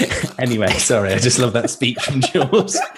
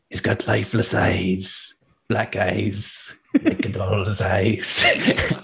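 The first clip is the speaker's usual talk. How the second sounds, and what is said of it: Imitates a movie character's voice. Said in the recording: “Is that your Spanish accent? ... No, that's Quint from Jaws.”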